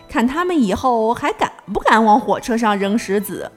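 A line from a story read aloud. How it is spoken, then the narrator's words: Laughing. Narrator (Chinese): 司机笑着说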